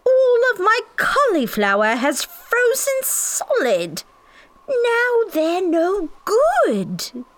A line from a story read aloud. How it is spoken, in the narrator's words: I heard Shirley Holmes yell